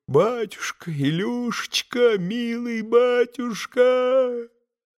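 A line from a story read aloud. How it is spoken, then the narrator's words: Wailing, sobbing cries. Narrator (Russian): как в бессилии, как сраженный, вопия и рыдая, начал выкрикивать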